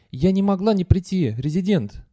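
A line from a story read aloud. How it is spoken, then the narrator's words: Rapid whisper. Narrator (Russian): быстро шептала Валона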